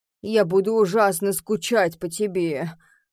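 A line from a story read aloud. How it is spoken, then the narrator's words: Father moaning. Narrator (Russian): простонал папа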